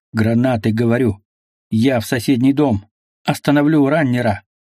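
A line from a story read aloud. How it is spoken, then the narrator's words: Growling. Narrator (Russian): буквально прорычал Мазай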